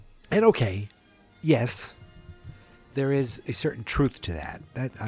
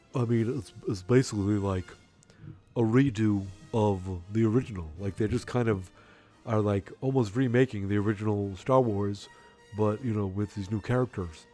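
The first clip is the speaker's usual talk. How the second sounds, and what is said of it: Imitates another person's voice. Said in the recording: “my impression of that guy online who said that”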